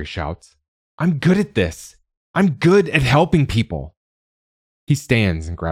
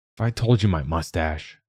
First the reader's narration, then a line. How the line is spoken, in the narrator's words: Rory mutters